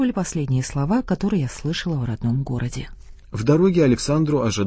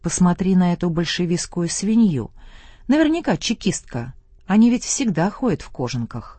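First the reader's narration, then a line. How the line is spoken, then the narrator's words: Loud village woman. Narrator (Russian): одна баба произнесла громко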